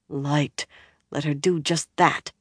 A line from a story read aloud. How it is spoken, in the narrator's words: Min muttered